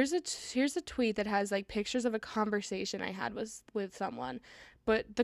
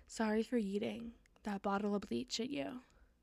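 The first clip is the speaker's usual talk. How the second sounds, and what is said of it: Dramatic voice. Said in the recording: “I'm supposed to be doing this in a dramatic voice.”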